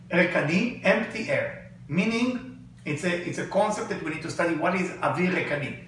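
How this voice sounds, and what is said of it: Accented non-native English. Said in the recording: “with my accent, you might think I talk about air.”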